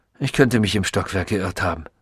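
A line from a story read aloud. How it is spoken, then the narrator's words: Distracted murmur. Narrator (German): murmelte, als sei er mit etwas anderem, weit wichtigerem beschäftigt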